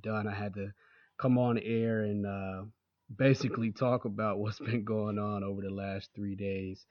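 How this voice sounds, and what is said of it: Hoarse voice. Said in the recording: “my voice is hoarse right now, is because I was yelling the whole game, cheering my team on”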